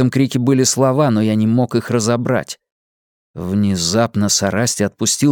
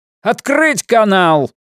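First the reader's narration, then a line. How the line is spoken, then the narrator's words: Shouting. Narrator (Russian): Кто-то кричал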